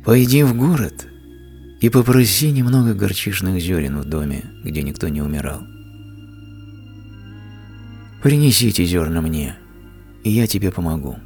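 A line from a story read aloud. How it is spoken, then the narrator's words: Gentle, smiling. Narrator (Russian): Будда мягко улыбнулся и сказал ей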